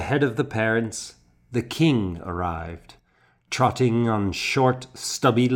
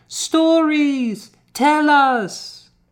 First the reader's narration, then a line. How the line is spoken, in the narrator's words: the children cried